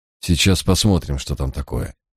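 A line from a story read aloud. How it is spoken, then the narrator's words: Quiet speech. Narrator (Russian): тихо произнес я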